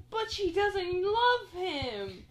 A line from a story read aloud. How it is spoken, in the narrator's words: And all the furries gasp